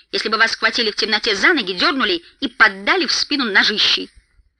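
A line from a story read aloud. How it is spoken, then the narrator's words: Snapping back. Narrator (Russian): огрызнулся Дори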